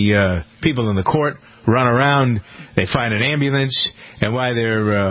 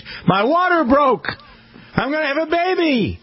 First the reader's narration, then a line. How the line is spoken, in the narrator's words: she yells to the judge